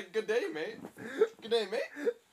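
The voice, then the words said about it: Failed Australian accent, sounds Indian. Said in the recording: “in an Australian accent ... That is some other accent. ... that's like Indian.”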